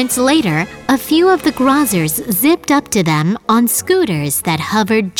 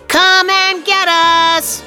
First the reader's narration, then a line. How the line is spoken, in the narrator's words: shouted Chip